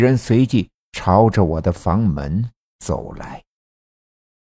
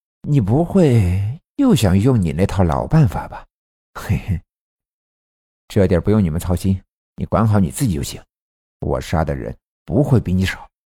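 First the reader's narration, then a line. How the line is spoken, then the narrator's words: Snide, sarcastic tone. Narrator (Chinese): 平头圆脸的男人笑了笑，阴阳怪气的说道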